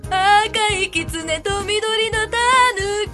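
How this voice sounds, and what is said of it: Sung impression of a female singer. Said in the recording (Japanese): “の モノマネ、中島みきみか、中島みかで ... ちょうどいいクオリティ ... 似てる、似てないがもうちょうどいい”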